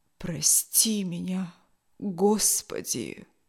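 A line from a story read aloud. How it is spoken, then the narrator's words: Barely audible old man. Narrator (Russian): чуть слышно произнес старый моряк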